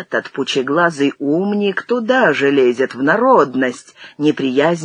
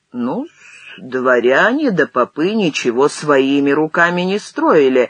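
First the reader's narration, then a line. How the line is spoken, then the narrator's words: Reply with a chuckle. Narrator (Russian): ответил Юхно и опять хохотнул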